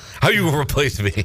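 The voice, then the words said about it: Impression of coach Steve Ellis. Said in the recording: “fake Steve Ellis should interview his replacement”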